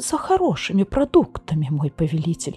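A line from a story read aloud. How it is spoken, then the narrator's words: Trembling babble. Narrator (Russian): пролепетал он дрожащим голосом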